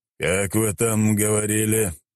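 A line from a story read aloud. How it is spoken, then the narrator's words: Deep bass voice. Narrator (Russian): пробасил он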